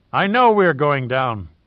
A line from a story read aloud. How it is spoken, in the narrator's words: Gallagher replied firmly